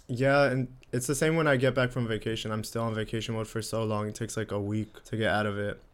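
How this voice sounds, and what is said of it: Slightly raspy, sick-sounding voice. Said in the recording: “I still feel sick. Like I'm coughing, my throat's a little raspy”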